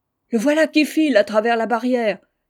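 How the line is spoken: Shouting. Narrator (French): cria Sol

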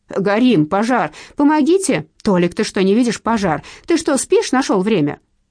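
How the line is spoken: Someone shouting. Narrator (Russian): кто-то крикнул

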